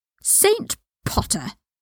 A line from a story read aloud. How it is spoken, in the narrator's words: Draco spat